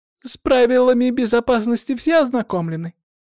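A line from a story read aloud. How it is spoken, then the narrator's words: Thin little voice. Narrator (Russian): тоненьким голоском поинтересовалась Олеся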